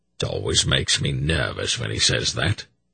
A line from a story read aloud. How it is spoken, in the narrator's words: Durnick murmured